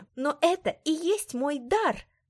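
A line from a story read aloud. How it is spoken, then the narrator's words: Exclaiming. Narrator (Russian): воскликнула я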